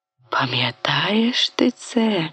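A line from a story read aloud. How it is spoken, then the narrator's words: Whispering one after another. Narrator (Ukrainian): шепотіли одне за одним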